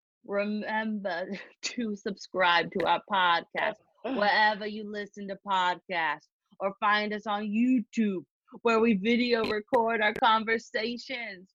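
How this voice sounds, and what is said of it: Boston Rob impression, Boston accent. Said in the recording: “my Boston Rob accent”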